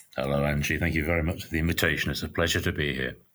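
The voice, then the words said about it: Soothing British accent. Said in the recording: “another lovely, soothing British accent to listen to today... you would be an excellent narrator of audiobooks”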